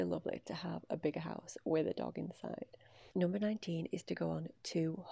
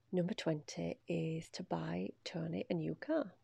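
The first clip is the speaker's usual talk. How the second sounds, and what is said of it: Speaks quietly, lowered voice. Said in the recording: “I'm saying that quietly... I don't know why I'm saying it quietly”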